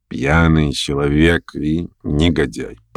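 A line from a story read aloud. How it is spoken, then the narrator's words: Reluctant mutter. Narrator (Russian): пробормотал как бы нехотя Шатов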